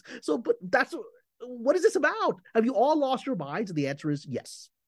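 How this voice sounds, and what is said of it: Pakistani accent emerging, worked up. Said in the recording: “You got so worked up. I could start hearing that the Pakistani coming out of you for a second. ... The accent comes out with my rage.”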